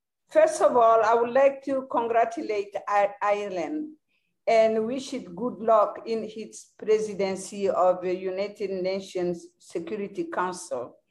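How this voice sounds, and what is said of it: Strong accent. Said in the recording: “my strong accent”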